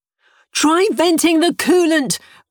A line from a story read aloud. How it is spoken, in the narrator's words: Bernice shouted as the shuttle tried to shake itself apart